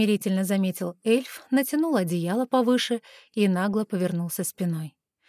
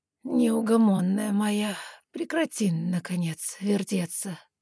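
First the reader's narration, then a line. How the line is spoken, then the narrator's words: Sleepy suggestion. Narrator (Russian): сонно предложил Вилэль с другого края кровати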